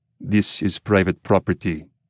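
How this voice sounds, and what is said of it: Gruff voice, thick Russian accent. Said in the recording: “His voice is gruff, and he's got a thick Russian accent.”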